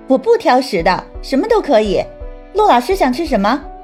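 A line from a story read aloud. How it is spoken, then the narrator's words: Laughing. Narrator (Chinese): 朱海棠笑道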